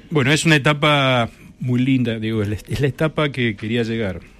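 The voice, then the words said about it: Announcer-like radio voice. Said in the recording (Spanish): “Tiene voz de locutor.”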